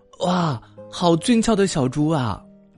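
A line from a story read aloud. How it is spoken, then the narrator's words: Animal shouting. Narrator (Chinese): 一只他从来没有见过的动物在树上大叫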